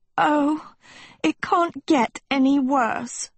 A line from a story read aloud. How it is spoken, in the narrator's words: Sophie moaned